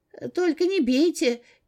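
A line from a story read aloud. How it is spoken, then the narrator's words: Squeak. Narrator (Russian): пискнул Гоша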